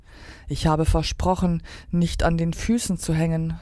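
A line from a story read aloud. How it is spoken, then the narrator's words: Sighing. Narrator (German): seufzte Stella Luna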